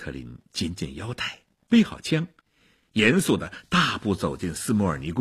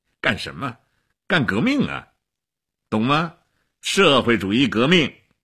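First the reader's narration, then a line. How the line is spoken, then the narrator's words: Laughing. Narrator (Chinese): 齐比索夫笑起来了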